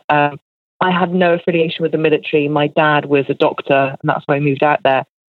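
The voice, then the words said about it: English accent. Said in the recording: “to speak with an English accent, as I do”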